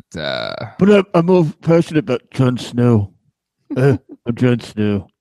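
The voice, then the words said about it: Impression of a TV character. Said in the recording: “That's my Jon Snow impression.”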